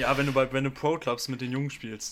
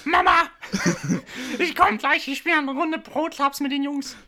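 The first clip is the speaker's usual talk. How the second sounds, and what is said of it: Pubescent teenage boy voice. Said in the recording (German): “du musst es mit so einer pubertären Stimme sagen”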